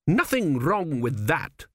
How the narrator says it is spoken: snapped

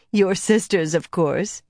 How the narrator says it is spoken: Saranda laughed

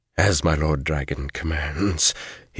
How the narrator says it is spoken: he said hoarsely

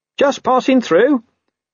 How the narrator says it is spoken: he said in a strangulatedly cheerful voice

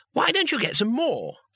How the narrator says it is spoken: said Two Flower, brightly

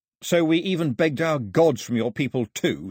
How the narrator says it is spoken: snapped Mao

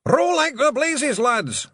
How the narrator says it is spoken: Rob Anybody yelled

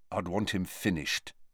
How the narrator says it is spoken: said Harry quietly

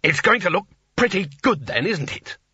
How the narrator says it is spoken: said War testily

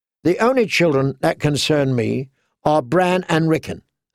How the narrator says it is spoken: Theon said

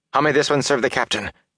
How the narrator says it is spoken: He asked in a tight voice

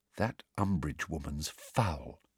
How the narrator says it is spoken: she said in a low voice

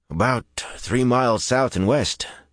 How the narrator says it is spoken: Dennell replied in a sour voice

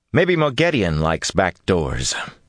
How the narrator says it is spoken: he said dryly

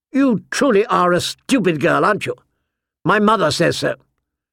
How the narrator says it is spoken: he said sharply

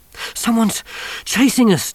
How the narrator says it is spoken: Johnny panted

